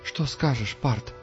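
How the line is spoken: Quiet question. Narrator (Russian): тихо спросила Инси

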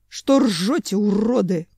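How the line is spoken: Angry growl. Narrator (Russian): злобно зарычал Семен

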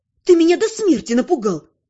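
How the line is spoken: Barking. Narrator (Russian): рявкнула я

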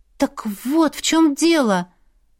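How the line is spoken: Exclaiming. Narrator (Russian): воскликнула я

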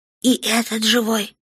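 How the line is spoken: Distant whisper. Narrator (Russian): донесся шепот

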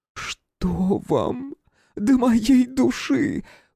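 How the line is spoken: Voice breaking into sobs. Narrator (Russian): Голос Елизаветы Федоровны сорвался на рыдание

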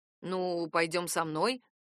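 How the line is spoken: Bewildered reply. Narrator (Russian): растерянно ответил он

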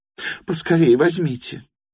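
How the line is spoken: Exclaiming. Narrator (Russian): воскликнула она

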